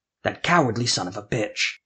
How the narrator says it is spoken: Jeremiah growled

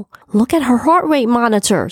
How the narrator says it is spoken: someone cried out

